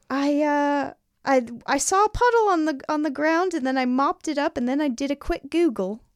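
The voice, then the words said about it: Bad put-on British accent. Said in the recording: “like british talk ... I don't know if this is how she sounds. This is a bad accent”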